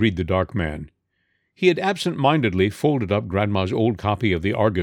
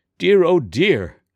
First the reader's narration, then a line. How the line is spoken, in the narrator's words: exclaimed Grandma wildly